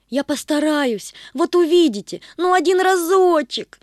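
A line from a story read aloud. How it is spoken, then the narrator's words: Pleading. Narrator (Russian): взмолилась Светка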